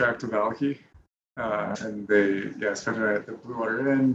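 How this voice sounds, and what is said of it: Usual voice. Nothing is said of it.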